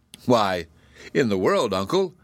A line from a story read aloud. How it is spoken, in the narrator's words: answered Zeb with a laugh